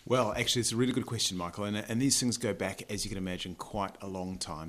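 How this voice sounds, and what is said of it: New Zealand accent. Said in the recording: “That's a New Zealand accent that you're listening to.”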